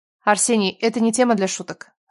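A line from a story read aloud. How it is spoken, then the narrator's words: Stern scolding. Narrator (Russian): строго выговаривала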